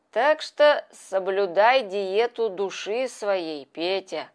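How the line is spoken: Plain. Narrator (Russian): сказал он

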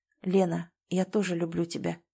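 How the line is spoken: Quiet, confident, sincere. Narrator (Russian): сказал он тихо и уверенно, так просто и искренне

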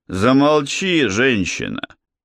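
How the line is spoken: Grumbling. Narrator (Russian): проворчал Кади

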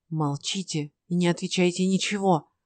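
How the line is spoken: Whispering. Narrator (Russian): прошептал Ной

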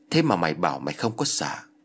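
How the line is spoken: Laughing, mocking. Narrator (Vietnamese): ông thầy tà cười rồi nói

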